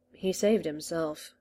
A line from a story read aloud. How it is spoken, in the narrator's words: the doctor muttered